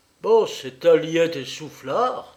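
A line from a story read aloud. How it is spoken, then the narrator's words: Exclaimed. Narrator (French): s'écria-t-il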